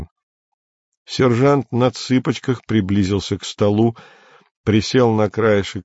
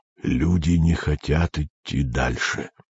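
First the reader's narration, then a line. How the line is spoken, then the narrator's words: Under the breath. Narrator (Russian): произнес он вполголоса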